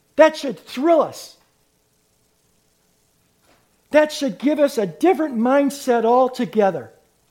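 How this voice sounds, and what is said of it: Yelling, loud preaching voice. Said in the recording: “I'm sorry I'm yelling”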